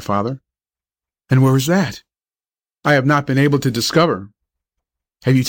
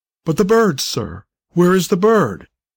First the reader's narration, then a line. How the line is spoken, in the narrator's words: exclaimed the doctor, who fairly felt himself in a dilemma